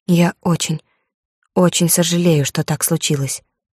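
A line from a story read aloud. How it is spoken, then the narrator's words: Quiet. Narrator (Russian): сказала тихо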